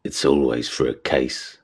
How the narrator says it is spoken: Nick muttered

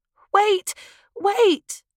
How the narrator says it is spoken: cried Binky in panic

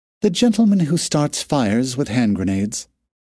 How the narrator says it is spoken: said sweetly

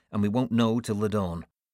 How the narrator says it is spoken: I said curtly

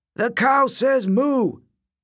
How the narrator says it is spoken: The kids howled

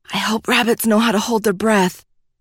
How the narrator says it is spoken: whispered

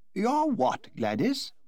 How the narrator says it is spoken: exclaimed the Duchess, giving an involuntary start

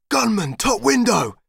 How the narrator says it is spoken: screamed H

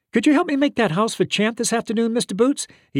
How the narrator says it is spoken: he asked eagerly

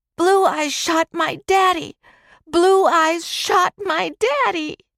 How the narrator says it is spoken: Timmy shrieked

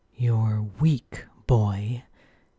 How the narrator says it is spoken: growled as he shifted to his full bear shape

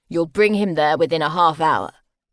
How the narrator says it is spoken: Grant said curtly

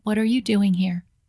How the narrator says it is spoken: said tightly

